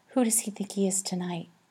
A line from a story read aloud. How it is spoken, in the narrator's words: Olive whispered to Horatio